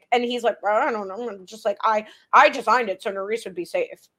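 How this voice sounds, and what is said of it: Imitates another person's voice. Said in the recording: “Good impression. ... That was very good. That was very good.”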